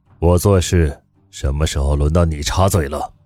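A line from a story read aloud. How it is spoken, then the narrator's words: Cold, menacing. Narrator (Chinese): 宋时清浑身散发出威压，冷声道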